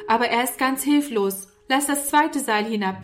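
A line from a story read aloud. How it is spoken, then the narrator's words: Calling upward. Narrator (German): rief Norman herauf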